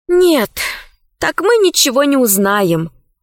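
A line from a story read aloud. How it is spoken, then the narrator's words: Sigh. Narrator (Russian): вздохнула Алиса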